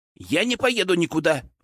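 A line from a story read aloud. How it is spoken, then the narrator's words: Flushed shout. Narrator (Russian): выкрикнул Петр Алексеевич краснея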